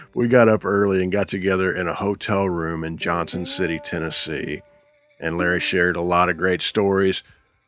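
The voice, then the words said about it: Haggard, worn-sounding voice. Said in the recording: “you can hear it in my voice. My voice is a little bit haggard on this.”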